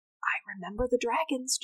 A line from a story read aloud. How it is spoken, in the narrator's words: Javen whispered